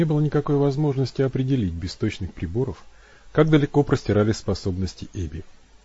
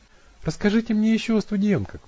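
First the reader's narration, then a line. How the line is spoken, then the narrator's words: Sighing. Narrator (Russian): вздохнула Эбби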